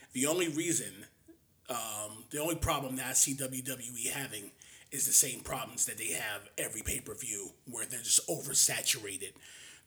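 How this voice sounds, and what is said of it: Very raspy, fading voice. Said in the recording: “I'm starting to lose my voice ... I'm using my rap voice because I'm trying to maintain ... Very raspy”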